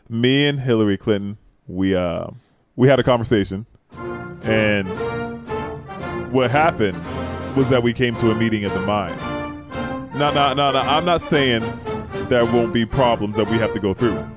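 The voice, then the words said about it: Barack Obama impression. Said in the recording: “the best Obama impression you did ... Do that other voice.”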